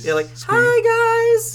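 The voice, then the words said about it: Squeaky character voice. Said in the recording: “like squeaky voice.”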